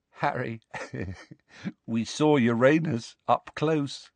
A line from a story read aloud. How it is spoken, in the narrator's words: said Ron, still giggling feebly